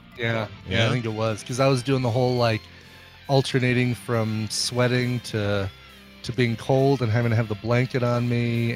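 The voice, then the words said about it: Congested, sick-sounding voice. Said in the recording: “you can tell by my voice, I really was sick. Still am kind of sick. Still a little congesty.”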